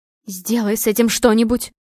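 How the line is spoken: Hissing. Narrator (Russian): шипела Лискина мать

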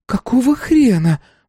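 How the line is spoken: Exclaimed. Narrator (Russian): воскликнула она

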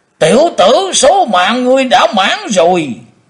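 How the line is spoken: Thunderous roar. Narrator (Vietnamese): Tử Diện Côn Luân gầm lên tạo sấm

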